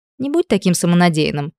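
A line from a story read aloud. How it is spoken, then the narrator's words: Snort. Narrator (Russian): фыркнула Элли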